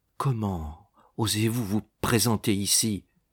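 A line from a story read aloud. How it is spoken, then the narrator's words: Murmur. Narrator (French): murmura-t-elle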